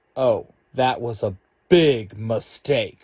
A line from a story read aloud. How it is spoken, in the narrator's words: Red Ranger barks